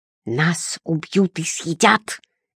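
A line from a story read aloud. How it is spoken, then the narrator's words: Bloodthirsty hiss, small child. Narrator (Russian): кровожадно шипел под дверь малыш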